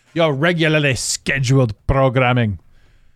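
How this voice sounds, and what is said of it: Put-on Scottish accent. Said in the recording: “Did I appropriate the Scottish accent?”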